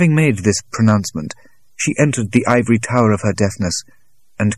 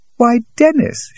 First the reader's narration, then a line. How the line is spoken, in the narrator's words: exclaimed